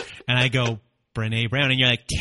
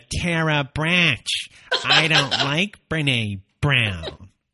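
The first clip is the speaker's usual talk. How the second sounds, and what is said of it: Imitates another person's voice. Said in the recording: “my imitation of you? ... That was great. I like it. Spot on.”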